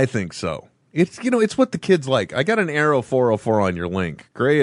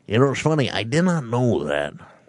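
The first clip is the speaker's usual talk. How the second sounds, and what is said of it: Imitates another person's voice. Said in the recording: “That is not a Johnny Carson impersonation, by the way. That is my Dana Carvey doing Johnny Carson impersonation.”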